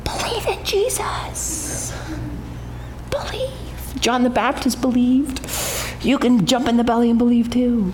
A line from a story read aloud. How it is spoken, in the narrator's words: many of your parents were whispering into the belly